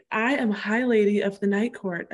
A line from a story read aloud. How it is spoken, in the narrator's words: I said quietly to them all